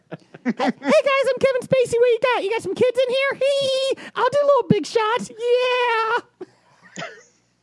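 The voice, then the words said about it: Imitates another person's voice. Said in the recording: “That felt like Kevin Spacey was here ... That was a good impression.”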